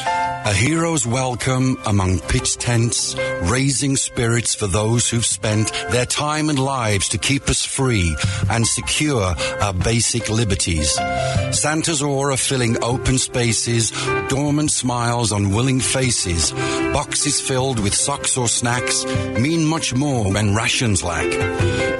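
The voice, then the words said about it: British accent. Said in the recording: “his fantastic British accent”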